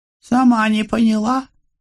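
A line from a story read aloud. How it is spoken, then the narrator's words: Anxious squeak. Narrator (Russian): пискнула де ла Мале, тревожно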